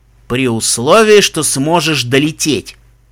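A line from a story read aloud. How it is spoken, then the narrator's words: Angry retort. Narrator (Russian): зло парировал Даггер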